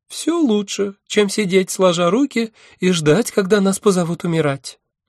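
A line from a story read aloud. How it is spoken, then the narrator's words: Thin girlish voice. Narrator (Russian): тонким голоском белокурой девицы сказал Марс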